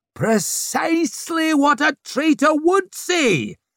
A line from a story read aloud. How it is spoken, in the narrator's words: screeched Swarbrick